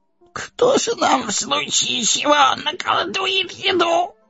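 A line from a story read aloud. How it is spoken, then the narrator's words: Whining. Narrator (Russian): Захныкали Дори и Нори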